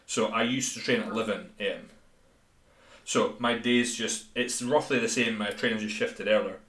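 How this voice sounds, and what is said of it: Thick Scottish accent. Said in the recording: “the thick Scottish accent”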